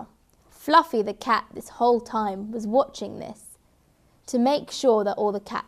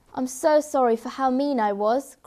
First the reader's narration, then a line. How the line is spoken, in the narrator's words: cried Fluffy